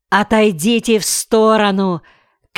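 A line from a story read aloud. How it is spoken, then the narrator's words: Shouted. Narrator (Russian): крикнул Кмоль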